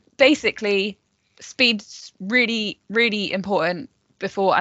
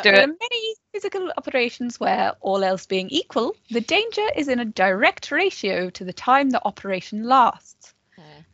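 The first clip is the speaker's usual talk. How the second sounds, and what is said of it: Posh voice. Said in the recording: “in a posher way than I will ... doing that voice”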